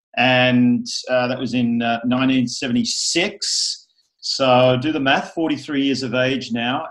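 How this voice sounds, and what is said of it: Australian accent. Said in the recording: “born in Sydney, Australia, as you can probably hear from the accent.”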